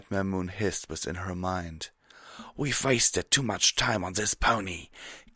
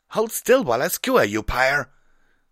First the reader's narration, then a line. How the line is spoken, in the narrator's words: Scarlet Rabbit shouted